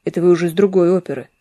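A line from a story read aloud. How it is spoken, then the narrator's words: Plain. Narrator (Russian): сказал Буркин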